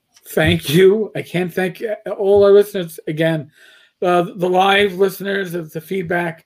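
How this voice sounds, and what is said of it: Strained, failing voice. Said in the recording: “As I'm losing my voice. ... I don't like the sound of this.”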